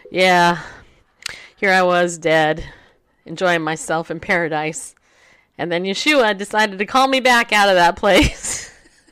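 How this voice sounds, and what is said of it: Stoic, serious voice. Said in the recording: “in his stoic, serious voice”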